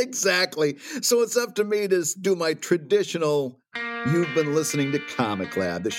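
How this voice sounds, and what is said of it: Usual voice. Nothing is said of it.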